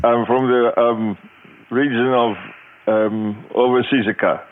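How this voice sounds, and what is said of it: Put-on foreign accent. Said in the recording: “what accent is that?”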